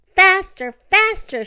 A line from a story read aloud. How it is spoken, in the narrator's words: shouted his mother